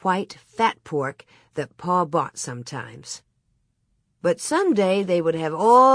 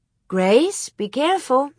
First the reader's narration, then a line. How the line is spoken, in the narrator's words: Mary exclaimed